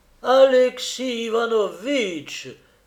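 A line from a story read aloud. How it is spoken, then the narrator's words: Man exclaiming in deep surprise. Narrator (French): s'écria-t-il sur le ton de la plus profonde surprise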